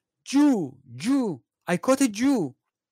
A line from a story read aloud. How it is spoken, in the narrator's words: shouted